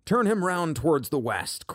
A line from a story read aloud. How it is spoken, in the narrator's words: cried the crowd